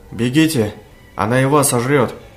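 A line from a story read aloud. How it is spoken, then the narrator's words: Terrified shouting. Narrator (Russian): кричал охваченный ужасом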